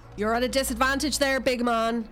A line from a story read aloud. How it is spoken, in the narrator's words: Lu shouts